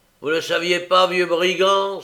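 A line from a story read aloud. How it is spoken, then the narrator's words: Exclaimed. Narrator (French): s'écria Sykes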